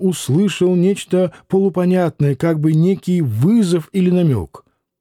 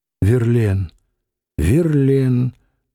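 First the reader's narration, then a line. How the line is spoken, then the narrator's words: Sighed twice. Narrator (Russian): дважды вздохнула Нехаева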